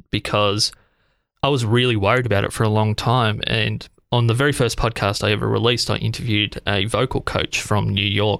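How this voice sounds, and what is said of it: Australian accent. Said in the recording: “that's exactly how I view my accent ... as far as Australians go, you're incredibly easy to understand and articulate, but I also love the tone of your voice”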